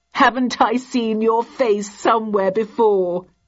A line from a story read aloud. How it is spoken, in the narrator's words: giggled